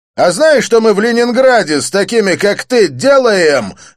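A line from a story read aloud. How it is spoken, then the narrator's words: Barked. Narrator (Russian): рявкнул блондин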